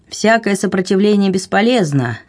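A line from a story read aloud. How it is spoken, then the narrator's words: Thunderous shout. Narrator (Russian): громовым голосом крикнул он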